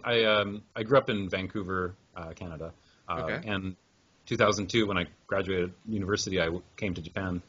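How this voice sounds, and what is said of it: North American English accent. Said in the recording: “you're originally from the States based on your accent?... I'm from Canada.”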